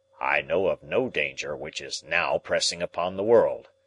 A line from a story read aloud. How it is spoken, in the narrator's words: Challenger answered gruffly